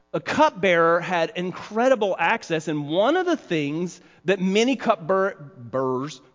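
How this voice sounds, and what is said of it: Southern American accent. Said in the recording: “there's my southern accent”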